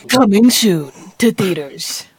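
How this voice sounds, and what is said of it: Deep American movie-trailer voice. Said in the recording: “That was better. I mean, the American accent helps as well”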